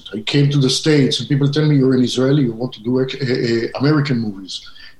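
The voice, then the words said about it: Israeli-accented English. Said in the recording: “you can hear my accent ... I'm from Israel”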